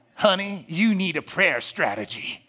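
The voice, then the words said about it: Feminine Southern drawl voice. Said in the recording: “with a little Southern drawl, a little feminine, right? Sort of awkward.”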